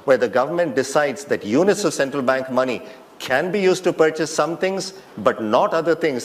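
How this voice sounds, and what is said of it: Thick foreign accent. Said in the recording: “his thick accent”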